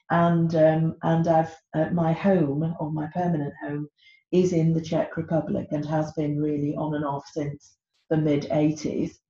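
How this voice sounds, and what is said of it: British English accent. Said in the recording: “Although I'm British, as you could probably hear from my accent”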